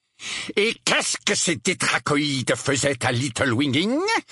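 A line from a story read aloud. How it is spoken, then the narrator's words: Outraged man's question. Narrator (French): demanda l'oncle Vernon d'un ton outragé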